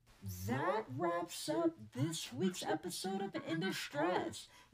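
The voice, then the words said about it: Funny put-on voice. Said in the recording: “I'm gonna put the funny voice on.”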